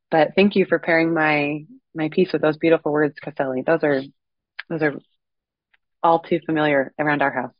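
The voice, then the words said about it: Voice sounds sick, under the weather. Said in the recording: “I apologize for my voice. I'm a little bit under the weather.”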